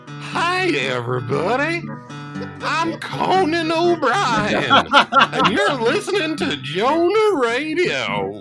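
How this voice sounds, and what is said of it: Impression of a show host. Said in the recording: “Do an impression of somebody starting the show.”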